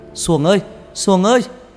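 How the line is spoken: Loud shout. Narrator (Vietnamese): thằng Bảy hét lớn

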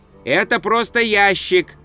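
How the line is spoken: Dwarf shouting. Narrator (Russian): крикнул гном

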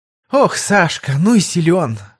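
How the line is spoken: Breathy exhale. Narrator (Russian): скорее выдохнула, чем произнесла она

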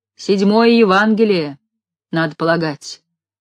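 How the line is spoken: Plain. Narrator (Russian): сказал Игнат

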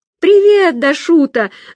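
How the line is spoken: Yelled. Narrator (Russian): заорала Настя

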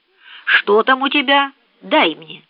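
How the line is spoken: Stern speech. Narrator (Russian): строго сказала мисс Офелия

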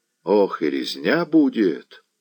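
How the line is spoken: Whispered in ear. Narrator (Russian): шепнул Харламп Селицкому на ухо

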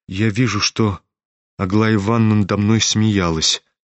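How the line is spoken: Sad reply. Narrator (Russian): грустно ответил князь

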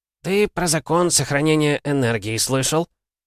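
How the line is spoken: Snort, then speaking. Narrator (Russian): Лев Михайлович хмыкнул и сказал

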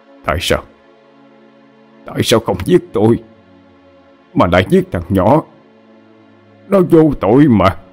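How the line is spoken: Muttering. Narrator (Vietnamese): Miệng lẩm bẩm nói

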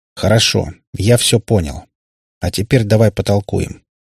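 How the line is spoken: Pointedly calm. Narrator (Russian): подчеркнуто спокойным голосом продолжил Кальтер

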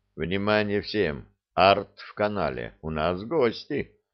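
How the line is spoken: Quiet, into microphone. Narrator (Russian): я тихо сказал в микрофон

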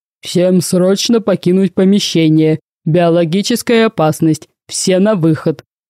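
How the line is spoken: Blaring male bass alarm. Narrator (Russian): сирена, голосившая мужским басом

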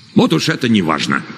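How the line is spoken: Irritated. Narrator (Russian): раздраженно ответил Варгас

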